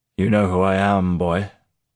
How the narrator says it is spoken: the bearded man growled

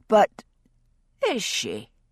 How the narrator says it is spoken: Jocasta asked dryly

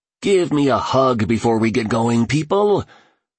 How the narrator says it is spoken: bellowed the billionaire affectionately

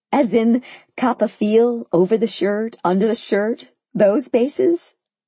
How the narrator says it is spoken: I laughed incredulously

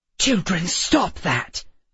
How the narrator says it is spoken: Miss Peregrine hissed

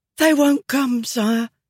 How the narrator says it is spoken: he said, gasping in Feshtun

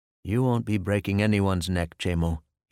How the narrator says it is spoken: he said in a soft, firm tone of voice

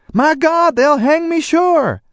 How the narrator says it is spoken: Fuchs spoke up impatiently

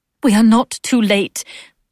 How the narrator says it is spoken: Osler said fiercely, a tiny diamond-decked lioness

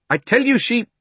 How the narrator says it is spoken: began the fat man

